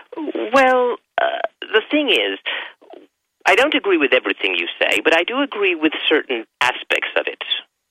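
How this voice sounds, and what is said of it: British accent that sounds fake. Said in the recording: “I suppose you can tell I'm not actually from Tennessee... you're from Britannia... Sounds like your voice. It sounds like a fake accent, buddy... I'm actually from Sussex”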